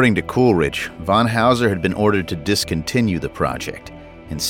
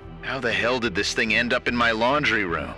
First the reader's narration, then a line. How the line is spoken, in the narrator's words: muttered